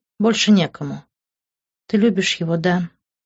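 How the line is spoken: Sad smiling. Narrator (Russian): печально улыбнулась Патриция

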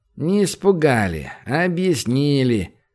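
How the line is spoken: Lazy explanation. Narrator (Russian): все так же лениво пояснил тот

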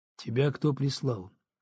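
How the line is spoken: Quiet, deliberately calm. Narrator (Russian): негромко спросил, стараясь говорить спокойно

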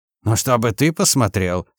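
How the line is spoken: Rude snapping. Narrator (Russian): совсем невежливо огрызнулся Сазонов

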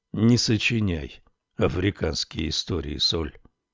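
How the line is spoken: Even, level voice. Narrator (Russian): ровным голосом проговорил полуночник

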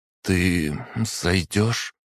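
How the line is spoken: Slightly trembling voice. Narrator (Russian): спросила она чуть дрогнувшим голосом

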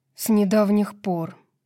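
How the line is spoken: Weary reply. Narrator (Russian): устало ответил Итан

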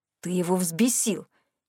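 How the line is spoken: Hissing. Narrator (Russian): прошипел Рэнди

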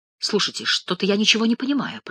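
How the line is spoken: Mumbling. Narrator (Russian): пробормотал Старицын

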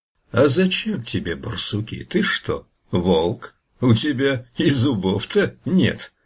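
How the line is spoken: Laughing bear. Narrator (Russian): медведь засмеялся

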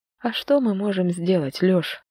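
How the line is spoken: Tired question. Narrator (Russian): спросила устало

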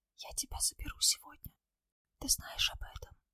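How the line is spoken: Whisper. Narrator (Russian): прошептал

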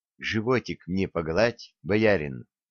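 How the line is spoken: Whispered. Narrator (Russian): шепнула

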